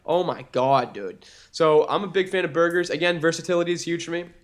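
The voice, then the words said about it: Strong Boston accent. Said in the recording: “a little bit of your Boston like accent just came out like strong”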